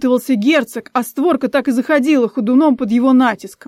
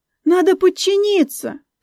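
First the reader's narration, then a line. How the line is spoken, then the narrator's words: Squeak. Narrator (Russian): пискнула Инесса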